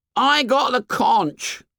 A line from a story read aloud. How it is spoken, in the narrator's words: said Piggy indignantly